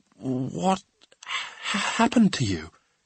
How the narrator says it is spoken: Omri asked falteringly

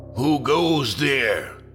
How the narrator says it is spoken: shouts the man with crimson hair

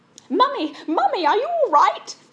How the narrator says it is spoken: screamed Prue

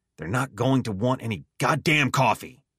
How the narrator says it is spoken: he snapped

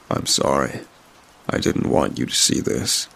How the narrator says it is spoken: he said solemnly

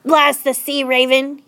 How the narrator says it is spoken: was bellowing

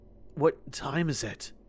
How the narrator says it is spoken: I asked in a gruff voice

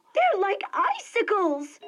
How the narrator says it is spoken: she exclaimed

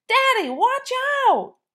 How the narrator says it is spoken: I screamed

